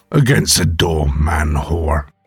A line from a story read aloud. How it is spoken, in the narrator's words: Jamie snarled